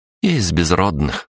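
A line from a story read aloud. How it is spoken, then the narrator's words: Said through gritted teeth. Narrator (Russian): процедила она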